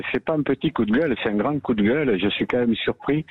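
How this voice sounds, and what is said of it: Regional southern French accent. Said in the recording (French): “vous nous appelez du Nord à entendre votre accent, non ? ... Perpignan”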